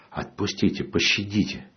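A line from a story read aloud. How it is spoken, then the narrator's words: Whispered plea. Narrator (Russian): шепотом говорю им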